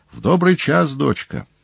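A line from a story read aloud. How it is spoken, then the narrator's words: Joyful exclamation. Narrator (Russian): радостно воскликнул Павел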